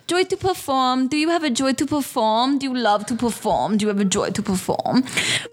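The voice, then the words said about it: Poor imitation of Quebec French accent. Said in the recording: “like French ... My accent's so bad. She's from like Quebec, Canada. ... My accent is not correct”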